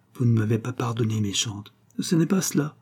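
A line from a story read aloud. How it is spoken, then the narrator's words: Murmured. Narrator (French): murmura-t-elle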